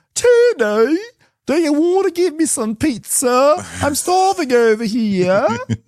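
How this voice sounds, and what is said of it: Put-on New York accent. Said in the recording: “going to try to do a New York accent.”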